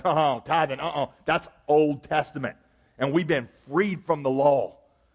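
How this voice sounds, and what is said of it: Mock deep Southern US accent. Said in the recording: “I put you in a deep southern accent when I imitate you”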